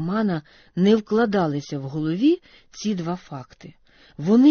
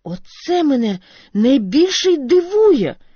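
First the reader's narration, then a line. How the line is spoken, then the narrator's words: Teenager exclaiming. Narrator (Ukrainian): вигукнув підліток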